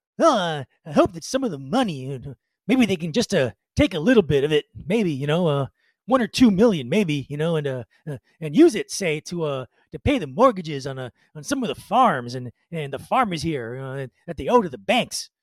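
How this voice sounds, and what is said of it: Imitates another person's voice. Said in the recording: “I'm going to do my best Bob voice.”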